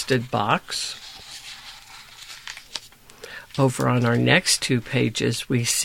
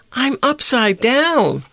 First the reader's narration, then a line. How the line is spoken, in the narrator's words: whined Gift